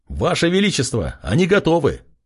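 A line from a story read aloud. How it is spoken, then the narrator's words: Loud shout. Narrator (Russian): громко выкрикнул один из подчиненных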